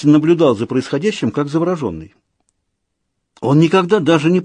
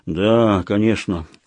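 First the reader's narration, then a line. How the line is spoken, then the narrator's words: Gloomy agreement. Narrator (Russian): мрачно согласился Война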